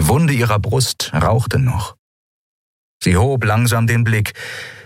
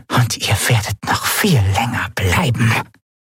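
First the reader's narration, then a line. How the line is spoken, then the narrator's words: Voice whispering from a corner. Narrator (German): wisperte eine Stimme in der Ecke des Raumes, in der Zailar lag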